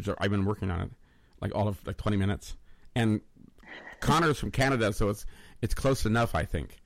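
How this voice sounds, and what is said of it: Usual voice. Nothing is said of it.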